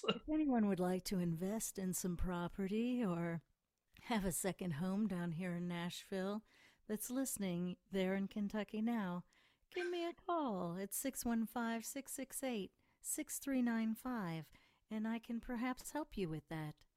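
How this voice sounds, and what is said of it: Polished radio announcer voice. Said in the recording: “you switched into your radio voice just seamlessly almost”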